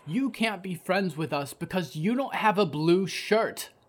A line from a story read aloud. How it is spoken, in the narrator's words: the boy yelled